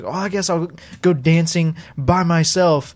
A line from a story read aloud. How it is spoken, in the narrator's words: yelling